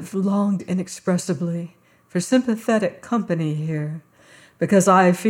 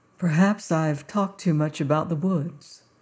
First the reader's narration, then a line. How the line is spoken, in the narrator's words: said the harvester gently